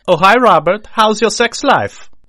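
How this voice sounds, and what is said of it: Put-on accent. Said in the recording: “I didn't expect an accent immediately.”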